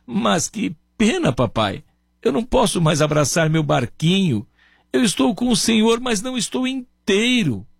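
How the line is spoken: Boy sobbing, broken voice. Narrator (Portuguese): o menino, com a voz entrecortada, soluçando, dizia

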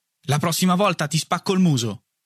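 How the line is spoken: Threatening warning. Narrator (Italian): lo avverto con un tono minaccioso

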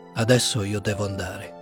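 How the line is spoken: Dull voice after pause. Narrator (Italian): rispose dopo un po' con voce opaca

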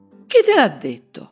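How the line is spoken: Frightened, nearly shouting. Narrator (Italian): raggelata in una smorfia di smarrimento e di paura, e quasi gridò

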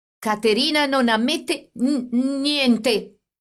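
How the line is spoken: Stammering. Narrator (Italian): disse balbettando

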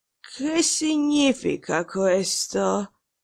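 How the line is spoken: Hoarse voice. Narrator (Italian): dire con voce rauca

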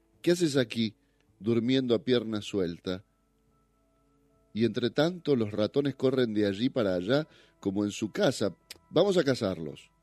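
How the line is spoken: Exclaiming. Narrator (Spanish): exclamó

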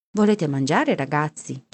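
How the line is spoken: Plain. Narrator (Italian): ci chiese

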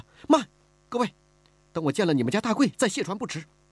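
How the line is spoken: Anxious, urgent. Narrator (Chinese): 李婉儿急了

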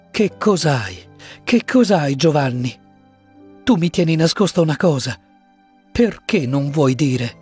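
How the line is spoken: Pleading. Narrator (Italian): supplicò lei

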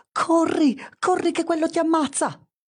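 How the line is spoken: Sudden shout. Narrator (Italian): c'è una voce che improvvisamente urla

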